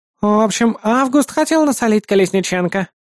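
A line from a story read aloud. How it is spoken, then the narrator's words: Tedious droning voice. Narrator (Russian): нудным голосом пояснила Дунаевская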